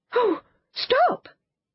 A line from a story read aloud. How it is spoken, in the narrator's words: cried Anthea